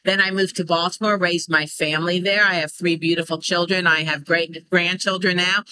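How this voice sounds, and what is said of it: American accent. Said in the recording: “You were born and raised in the United States. I can tell from your accent.”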